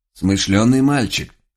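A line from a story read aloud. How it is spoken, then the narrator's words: Quiet old man's mutter. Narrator (Russian): тихо пробормотал старик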